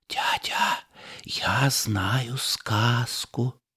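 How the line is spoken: Whisper. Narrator (Russian): шепотом

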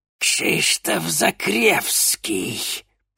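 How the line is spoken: Hissing witch. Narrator (Russian): прошипела ведьма

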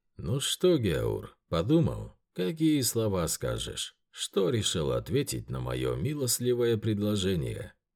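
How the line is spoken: Calm question. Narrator (Russian): спокойно спросил хан

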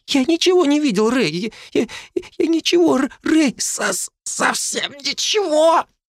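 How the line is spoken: Hoarse wheeze. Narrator (Russian): Захрипел он

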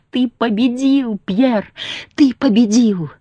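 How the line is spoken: Joyful shouting. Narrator (Russian): Максина радостно крича

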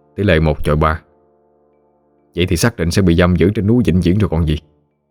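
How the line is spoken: Muttering. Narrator (Vietnamese): Tôi lẩm bẩm

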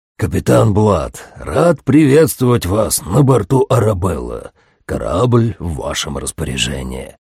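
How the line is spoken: Hoarse bass. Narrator (Russian): прозвучал знакомый хриплый бас

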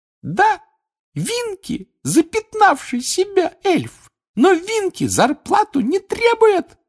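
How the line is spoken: Squeaky voice. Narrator (Russian): пропищала она

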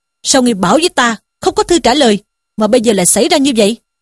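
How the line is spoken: Furious shouted question. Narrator (Vietnamese): Sử Tiến cả giận, quát hỏi Dương Tứ rằng

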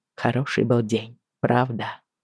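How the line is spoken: Soft question. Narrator (Russian): негромко спросил он

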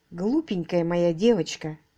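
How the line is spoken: Muttering. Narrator (Russian): пробормотал он

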